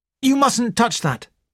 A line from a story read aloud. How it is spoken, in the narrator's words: said sharply